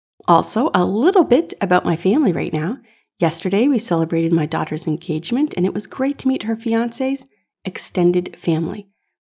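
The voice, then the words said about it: Slightly rough, recovering voice. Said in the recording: “I had such a terrible cold, and my voice was a disaster. There's still a little bit of it hanging on, so hopefully my voice doesn't sound too bad”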